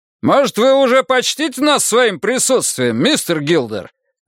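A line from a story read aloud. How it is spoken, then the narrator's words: Shouting. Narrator (Russian): крикнул он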